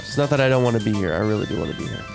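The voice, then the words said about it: Congested, stuffy-nosed voice. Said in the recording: “if I sound a little weird today, I'm a little stuffy nose ... He's got a stuffy nose.”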